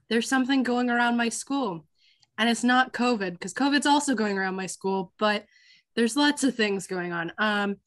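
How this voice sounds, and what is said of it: Congested, sick-sounding voice. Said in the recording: “I have a cold, so I apologize for my voice.”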